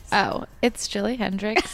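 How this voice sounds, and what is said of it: Sultry, deep, monotone sexy voice. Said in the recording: “my sultry, slightly deep, monotone, sexy voice”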